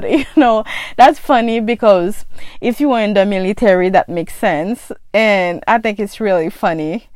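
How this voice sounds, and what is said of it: Haitian accent. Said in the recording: “my accent ... most of my friends got an accent just like me. We're from Haiti. ... I got a funny accent”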